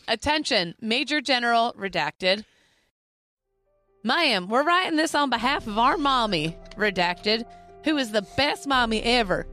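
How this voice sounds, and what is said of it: Put-on Southern accent. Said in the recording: “You were about to do a Southern accent. Yes, she was.”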